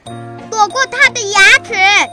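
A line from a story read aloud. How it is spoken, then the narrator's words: Startled loud shout. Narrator (Chinese): 青头大吃一惊，大声喊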